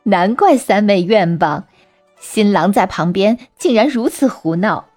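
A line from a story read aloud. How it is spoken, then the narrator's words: Laughing. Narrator (Chinese): 大姐笑着说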